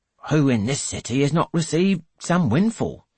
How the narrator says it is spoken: he snaps

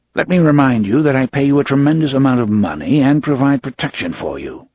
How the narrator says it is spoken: the director said coldly

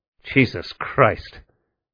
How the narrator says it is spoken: Neumann muttered

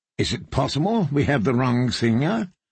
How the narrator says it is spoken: Cersei asked

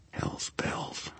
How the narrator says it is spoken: I swore softly

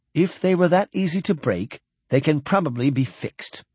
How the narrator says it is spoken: Horvath said soothingly

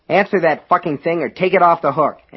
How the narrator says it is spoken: Alan snapped at Norris

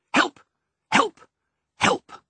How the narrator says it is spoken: three short, sharp barks

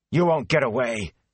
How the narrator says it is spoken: spat angrily

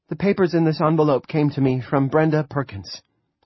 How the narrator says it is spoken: she said, and at least her voice was steady

